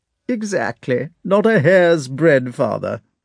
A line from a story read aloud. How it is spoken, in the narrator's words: answered Prince Vasily, laughing